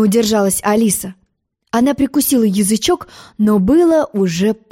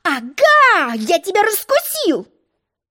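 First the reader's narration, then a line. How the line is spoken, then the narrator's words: Furious yell. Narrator (Russian): гневно завопил Желток-Белток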